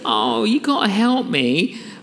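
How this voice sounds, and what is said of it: Sad pleading voice. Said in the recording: “put on that sad voice.”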